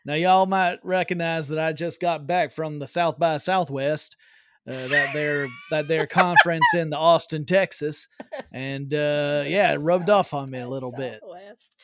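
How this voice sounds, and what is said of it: Put-on Texas accent. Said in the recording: “your Texas accent's getting real good there”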